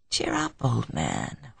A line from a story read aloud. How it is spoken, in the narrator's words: whispered his companion